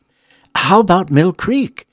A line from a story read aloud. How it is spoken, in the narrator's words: Emmeline shrieks in excitement